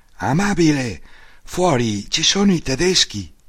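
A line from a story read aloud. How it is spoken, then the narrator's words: Exclaiming. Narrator (Italian): io ho esclamato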